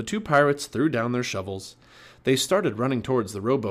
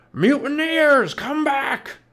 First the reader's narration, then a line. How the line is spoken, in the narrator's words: shouted Cap'n Bones